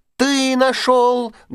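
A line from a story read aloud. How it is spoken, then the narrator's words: Loud shouting, little mice. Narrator (Russian): громко закричали мышата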